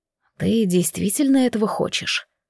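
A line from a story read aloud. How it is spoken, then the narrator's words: Whispered question. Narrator (Russian): шепотом спросил Алан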